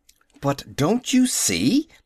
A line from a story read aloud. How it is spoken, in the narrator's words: insisted Howell angrily